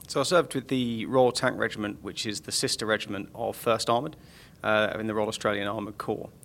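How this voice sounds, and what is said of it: Non-Australian accent. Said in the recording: “you do have a different accent from most Australian Army officers”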